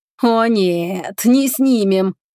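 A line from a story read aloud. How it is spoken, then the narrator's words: Laughing, then howling. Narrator (Russian): Она вдруг захохотала, а потом взвыла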